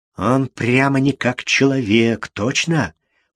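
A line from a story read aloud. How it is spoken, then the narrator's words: Whisper. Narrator (Russian): прошептал какой-то голос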